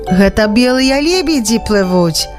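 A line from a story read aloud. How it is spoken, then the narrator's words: Explaining, mysterious smile. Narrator (Belarusian): растлумачыў Янка і загадкава усміхнуўся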